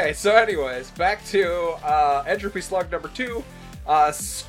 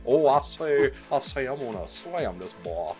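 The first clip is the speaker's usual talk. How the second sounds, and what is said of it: Southern Kentucky accent, Foghorn Leghorn-like. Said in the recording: “This one has a southern accent, like he's from Kentucky ... It sounds like Foghorn Leghorn.”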